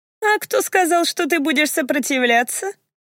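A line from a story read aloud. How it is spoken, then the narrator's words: Sudden laugh. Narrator (Russian): Вдруг рассмеялась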